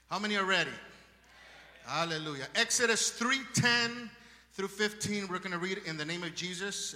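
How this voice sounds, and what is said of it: Strong Spanish accent. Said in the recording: “I have a strong Spanish accent”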